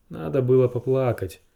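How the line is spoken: Sighing. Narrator (Russian): вздохнул Ксара

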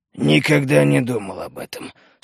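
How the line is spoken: Embarrassed mutter. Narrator (Russian): смущенно пробурчал он

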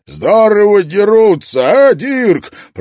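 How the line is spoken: Roaring over noise. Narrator (Russian): проревел Брок, перекрывая общий шум

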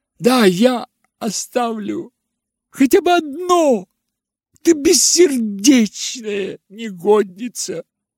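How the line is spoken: Shrieking. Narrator (Russian): завизжала она

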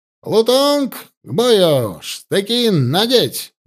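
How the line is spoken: Loud shout. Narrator (Russian): громко выкрикнул Гусев

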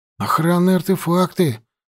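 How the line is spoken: Breathless exclamation. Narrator (Russian): выдохнул остановившийся рядом Фандор

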